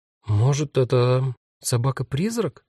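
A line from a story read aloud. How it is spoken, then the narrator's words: Uncertain suggestion. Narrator (Russian): неуверенно предположила Магда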